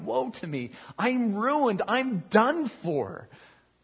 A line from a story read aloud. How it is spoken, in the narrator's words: He cried